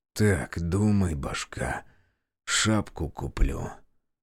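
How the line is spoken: Muttering. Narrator (Russian): пробормотал я

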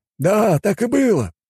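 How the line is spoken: Exclaimed by homeless man. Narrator (Russian): воскликнул бездомный

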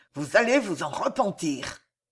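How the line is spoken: Hissed through clenched teeth. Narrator (French): ajouta Pardayant, les dents serrées, la voix sifflante

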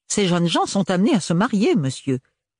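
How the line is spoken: Outraged exclamation. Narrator (French): s'exclama-t-elle outrée

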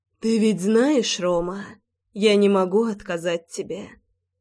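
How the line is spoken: Purring. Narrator (Russian): промурлыкала Маргарита

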